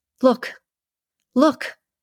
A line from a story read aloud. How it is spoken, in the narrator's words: cried